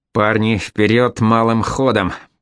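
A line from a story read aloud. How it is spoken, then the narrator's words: Hissing. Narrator (Russian): прошипел Алексей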